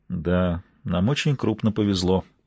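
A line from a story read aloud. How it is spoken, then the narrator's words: Sad remark. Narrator (Russian): грустно заметил Тура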